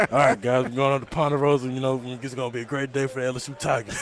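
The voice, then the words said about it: Imitates another person's voice. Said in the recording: “your best Coach O impression ... Well done”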